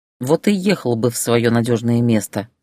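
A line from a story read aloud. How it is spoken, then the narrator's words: Plain. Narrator (Russian): сказала она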